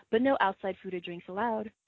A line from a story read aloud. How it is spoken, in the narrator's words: smiled sweetly and added